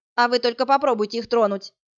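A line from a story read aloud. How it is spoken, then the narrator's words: Sharp shout. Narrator (Russian): прикрикнула она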